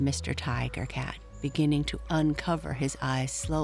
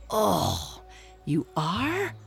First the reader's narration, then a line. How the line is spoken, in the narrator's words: growled Mr